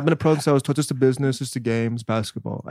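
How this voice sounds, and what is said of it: Poor Luka Doncic impression. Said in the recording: “your Doncic impression ... That was bad. Probably like a 2.”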